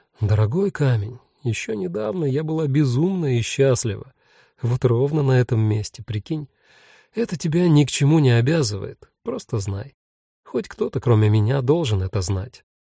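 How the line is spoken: Whispering. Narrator (Russian): сказать ему шепотом

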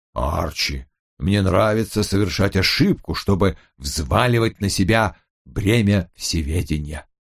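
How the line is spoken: Intense muttering. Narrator (Russian): с едва ли не полностью распахнутыми глазами бормотал мне

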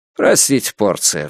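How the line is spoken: Sighing. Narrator (Russian): вздохнул Люсьен

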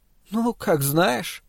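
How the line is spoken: Upset, rejected woman. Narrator (Russian): расстроенным голосом отверженной женщины проговорила она

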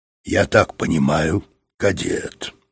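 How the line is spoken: Cold. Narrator (Russian): сказал он холодно

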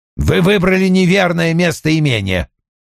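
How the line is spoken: Snapping. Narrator (Russian): огрызнулся Вульф

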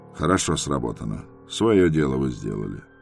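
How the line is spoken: Calm. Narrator (Russian): Полковник спокойно сказал

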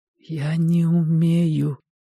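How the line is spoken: Whisper. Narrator (Russian): прошептал Костя

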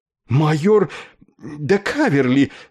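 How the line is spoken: Breathless astonished exclamation. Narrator (Russian): задохнувшись от изумления воскликнул Нетли

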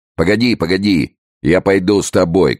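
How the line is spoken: Shouted. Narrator (Russian): крикнул один из гвардейцев

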